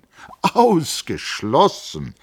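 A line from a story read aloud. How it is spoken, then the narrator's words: Called out. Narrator (German): rief Hans Castorp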